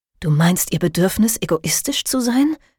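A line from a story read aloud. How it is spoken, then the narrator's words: Hissed. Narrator (German): zischte Phoebe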